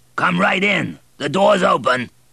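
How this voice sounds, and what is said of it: Deep hoarse shouting male voice. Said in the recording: “shouted a deep, hoarse voice”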